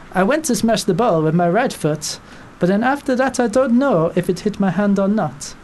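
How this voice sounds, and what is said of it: Mock French accent imitating Koscielny. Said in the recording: “the French accent ... it's kind of like taken a detour over the Atlantic, but you know, it's kind of coming back round ... kind of Hercule Poirot”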